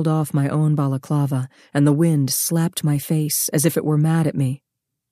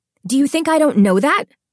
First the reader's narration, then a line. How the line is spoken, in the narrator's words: she snapped